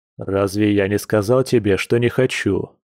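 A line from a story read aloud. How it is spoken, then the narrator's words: Gloomy, wavering reminder. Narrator (Russian): мрачно напомнил Дима, но уже без прежней решимости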